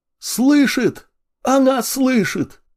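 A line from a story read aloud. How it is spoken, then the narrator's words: Joyful yell. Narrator (Russian): радостно завопил сир Никита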